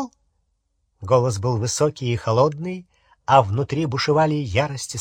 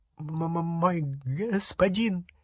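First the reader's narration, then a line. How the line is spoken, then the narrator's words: Terrified stammering babble. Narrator (Russian): залепетал гоблин, запинаясь и тараща черные глаза, полные ужаса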